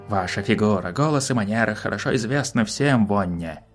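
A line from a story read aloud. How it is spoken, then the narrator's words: Plain. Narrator (Russian): сказал Кабат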